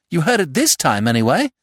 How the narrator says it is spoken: Jack triumphantly, crying out

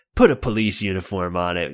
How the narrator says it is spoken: Nasty Kathy snaps

